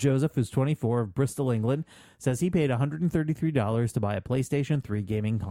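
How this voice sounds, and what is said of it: Usual voice. Nothing is said of it.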